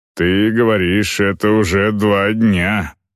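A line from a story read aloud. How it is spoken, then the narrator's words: Growled. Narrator (Russian): прорычал Агнар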